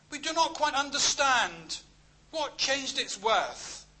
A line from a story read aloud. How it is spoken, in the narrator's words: some exclaimed